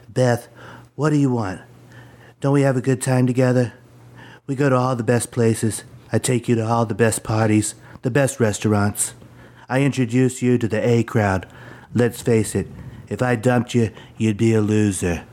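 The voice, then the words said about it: Donald Trump impression. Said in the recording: “my Donald Trump impression ... Was Donald Trump in the room with us?”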